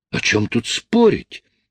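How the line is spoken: Exclamation. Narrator (Russian): воскликнула Джин

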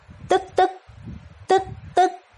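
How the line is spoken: Stunned stammer. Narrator (Vietnamese): Chứ Bất Liệt mới lấy lại được hồn, hai mắt mở to, lắp bắp

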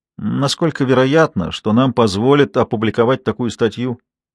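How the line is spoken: Tired question. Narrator (Russian): устало спросила Берет

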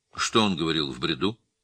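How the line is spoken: Plain. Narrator (Russian): спросил его незнакомец

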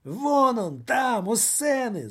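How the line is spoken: Screamed. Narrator (Russian): завопил господин Радио

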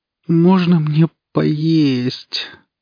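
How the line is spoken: Weak moan. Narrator (Russian): простонала девушка

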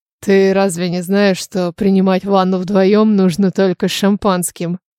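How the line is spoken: Purring. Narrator (Russian): Промурлыкал

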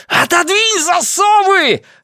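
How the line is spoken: Shrieking. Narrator (Russian): завизжал я

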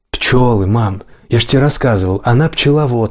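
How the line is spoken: Plain. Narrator (Russian): сказал Джейк

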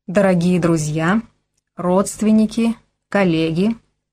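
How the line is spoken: Solemn. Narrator (Russian): торжественно произнес Игорь

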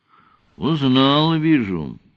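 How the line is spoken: Satisfied remark, sigh. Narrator (Russian): удовлетворенно заметил кронг-адмирал и вздохнул

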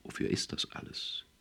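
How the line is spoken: Softly asked. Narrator (German): fragte er leise

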